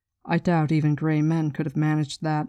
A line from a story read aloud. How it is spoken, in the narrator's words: Moraine said dryly